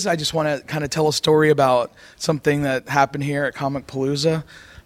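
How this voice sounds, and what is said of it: Hoarse, worn-out voice. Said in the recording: “my voice is kind of gone”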